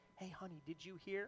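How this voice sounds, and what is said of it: Quiet, hushed voice. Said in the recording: “in a quiet voice”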